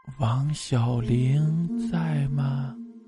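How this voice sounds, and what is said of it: Mournful, desolate voice. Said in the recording (Chinese): “他就以凄凉的声音说”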